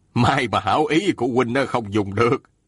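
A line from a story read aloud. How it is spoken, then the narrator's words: Smiling. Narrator (Vietnamese): Thiết La Hán mỉm cười nói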